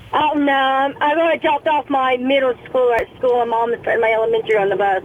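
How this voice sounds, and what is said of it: Young, childlike sounding voice. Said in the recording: “you sound like a child.”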